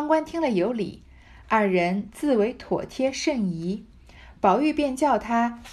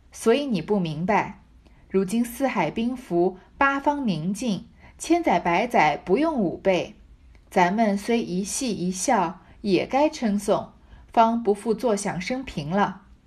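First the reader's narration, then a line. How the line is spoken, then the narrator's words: Laughing. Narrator (Chinese): 宝玉笑道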